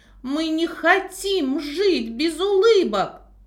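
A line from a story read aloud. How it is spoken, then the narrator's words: Shouting in chorus. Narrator (Russian): закричали они хором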